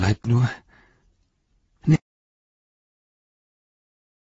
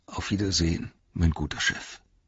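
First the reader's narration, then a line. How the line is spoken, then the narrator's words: Murmuring. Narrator (German): murmelte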